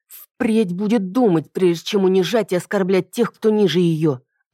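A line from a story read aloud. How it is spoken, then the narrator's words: Through clenched teeth. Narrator (Russian): ответила я сквозь зубы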